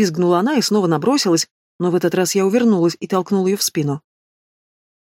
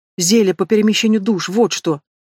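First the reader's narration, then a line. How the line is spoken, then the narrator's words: Snapped. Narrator (Russian): Размазывая по лицу поплывшую тушь, огрызнулась она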